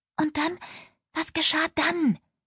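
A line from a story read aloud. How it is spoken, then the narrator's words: Breathless reindeer girl whispering. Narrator (German): flüsterte Lina, ein Rentiermädchen, atemlos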